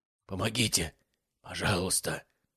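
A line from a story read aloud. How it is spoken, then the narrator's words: Hoarse, croaking plea. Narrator (Russian): прохрипел он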